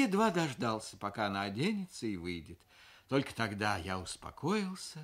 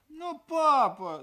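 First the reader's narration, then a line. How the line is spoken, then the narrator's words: Whining child. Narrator (Russian): захныкала дочь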